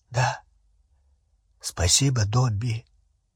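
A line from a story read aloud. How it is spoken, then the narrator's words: Throat-clearing, hoarse. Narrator (Russian): Рон прокашлялся и хрипло сказал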